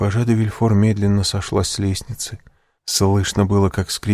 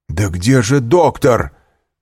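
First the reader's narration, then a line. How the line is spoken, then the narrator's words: Shout. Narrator (Russian): кричал Вильфор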